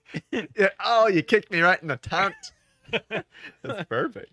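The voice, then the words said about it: Mock Australian accent. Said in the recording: “Australians use it. ... There's their accent.”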